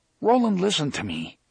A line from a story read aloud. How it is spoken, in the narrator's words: Eddie said earnestly